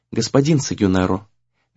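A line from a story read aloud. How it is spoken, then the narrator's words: Soft woman, steely undertone. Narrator (Russian): мягко произнесла женщина, но в ее голосе послышался отдаленный стальной отголосок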